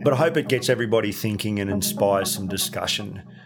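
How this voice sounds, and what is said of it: Australian accent. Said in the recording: “the Aussie drawl”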